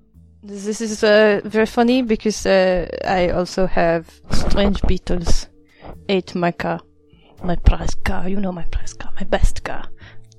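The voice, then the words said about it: Faint put-on accent. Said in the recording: “Don't know what my accent is doing now. ... Whatever it's doing, it's doing it very quietly.”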